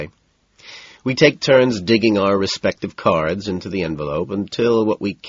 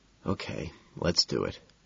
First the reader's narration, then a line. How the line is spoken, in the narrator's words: quietly he says